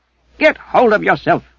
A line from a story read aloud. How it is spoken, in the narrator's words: Darrell snapped